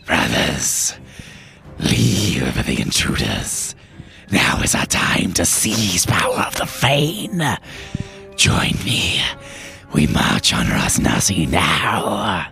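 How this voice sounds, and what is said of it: Raspy character voice. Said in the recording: “a raspy voice calls out”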